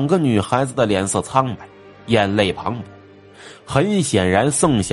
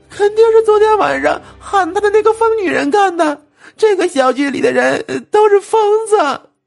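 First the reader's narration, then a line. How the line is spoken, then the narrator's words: Girl crying. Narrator (Chinese): 另一个女孩张碧也哭着说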